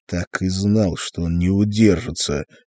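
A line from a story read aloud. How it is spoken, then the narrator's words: Nervous muttering. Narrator (Russian): нервно бормотал Артур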